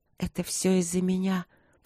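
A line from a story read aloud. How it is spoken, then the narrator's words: Bitter whisper. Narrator (Russian): прошептала горько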